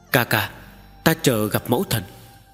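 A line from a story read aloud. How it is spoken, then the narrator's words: Calm, soft. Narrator (Vietnamese): Tần Mục lấy lại sự bình tĩnh, khẽ nói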